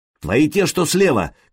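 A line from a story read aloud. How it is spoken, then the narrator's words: Shout. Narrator (Russian): крикнул Сергей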